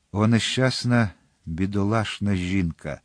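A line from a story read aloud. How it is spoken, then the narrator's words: Hoarse, repeating. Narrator (Ukrainian): захриплим голосом повторював Атос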